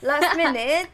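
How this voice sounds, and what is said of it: Put-on British accent. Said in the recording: “I'm talking a British accent.”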